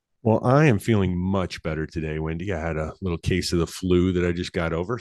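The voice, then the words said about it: Raspy, hoarse voice. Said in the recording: “if I sound a little raspy or hoarse ... You love the raspy and the hoarseness.”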